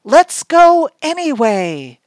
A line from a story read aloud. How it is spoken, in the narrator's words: Mom shouted through the rain